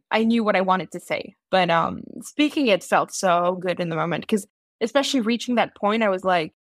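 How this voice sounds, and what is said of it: Strong unusual accent. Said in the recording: “my accent is so strange ... the computer didn't really take well on some of the words that I spoke”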